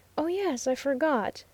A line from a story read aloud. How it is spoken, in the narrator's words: murmured the Oriental lady